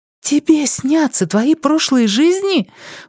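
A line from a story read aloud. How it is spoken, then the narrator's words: Delighted exclamation. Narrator (Russian): восторженно воскликнула Элиза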